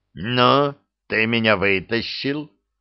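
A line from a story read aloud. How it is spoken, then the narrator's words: Growling. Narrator (Russian): прорычал изображение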